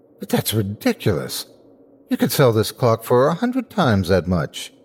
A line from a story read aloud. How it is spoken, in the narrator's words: Lockyer gaped at him and at last cried